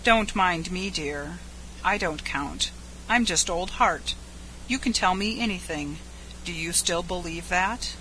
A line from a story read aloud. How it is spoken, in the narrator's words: he said softly